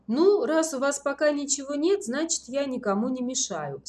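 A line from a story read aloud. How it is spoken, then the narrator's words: Calm remark. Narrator (Russian): спокойно заметил Ворожцов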